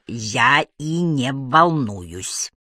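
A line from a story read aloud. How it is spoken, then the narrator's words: Through clenched teeth. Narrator (Russian): процедила Агата сквозь стиснутые зубы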